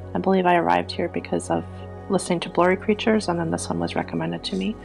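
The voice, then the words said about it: Minnesota accent. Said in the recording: “I'm from Minnesota too. You can probably hear that in my voice.”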